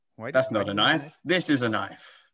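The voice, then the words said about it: Weak put-on Australian accent. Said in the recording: “We need a thicker Australian accent for that. Come on. ... That wasn't a realistic just, enough Australian accent. ... are you just not good at Australian?”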